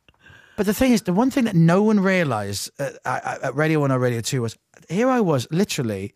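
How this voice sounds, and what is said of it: Usual voice. Nothing is said of it.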